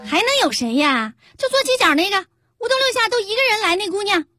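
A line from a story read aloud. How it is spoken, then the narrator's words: Loud. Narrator (Chinese): 这小店的老板娘……冲那姓陈的服务员大声说道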